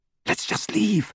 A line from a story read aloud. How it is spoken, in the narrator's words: Hermione whispered